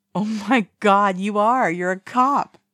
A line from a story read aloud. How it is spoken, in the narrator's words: laughs uproariously